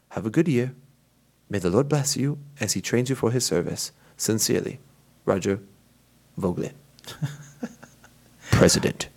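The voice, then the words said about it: Put-on Harry Potter audiobook accent. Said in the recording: “you had me dying with that accent. The whole time I'm just thinking of listening to a Harry Potter audiobook”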